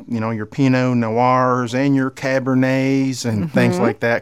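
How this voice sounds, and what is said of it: Put-on redneck accent. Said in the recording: “I love saying that with a redneck accent.”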